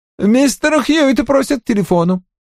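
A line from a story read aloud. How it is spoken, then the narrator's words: Irritated, interrupted tone. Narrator (Russian): раздраженно сказал он, поскольку терпеть не мог, когда его отрывали от дела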